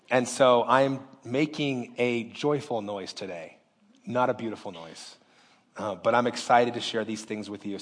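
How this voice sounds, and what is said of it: Voice much lower than normal. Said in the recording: “my voice is a few octaves lower than it normally is.”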